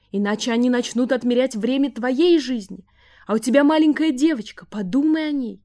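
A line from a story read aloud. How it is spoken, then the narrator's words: Shouting mother. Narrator (Russian): закричала мать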